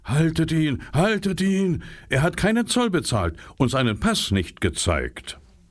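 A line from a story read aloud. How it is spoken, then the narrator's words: Snarling shout. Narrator (German): fletschte sie die Zähne und rief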